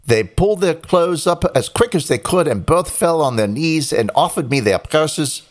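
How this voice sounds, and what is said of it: Put-on unidentified accent. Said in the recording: “I don't know what accent I'm doing now.”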